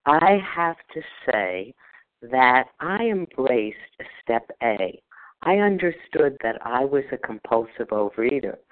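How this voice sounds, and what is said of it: Heavy New Jersey accent. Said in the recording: “apparently with a really heavy New Jersey accent.”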